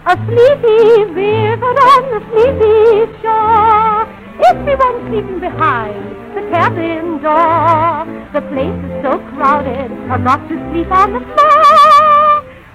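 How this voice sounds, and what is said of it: English music hall singer, southern accent. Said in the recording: “an impression of an English music hall artist, rendering an American song with a way down south type. Pardon her southern accent”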